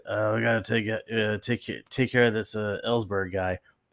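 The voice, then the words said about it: Imitates another person's voice. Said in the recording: “That's my my best Nixon impersonation”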